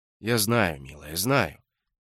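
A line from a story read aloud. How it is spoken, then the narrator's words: Gentle affectionate tone. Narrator (Russian): ласково заговорил мистер Смит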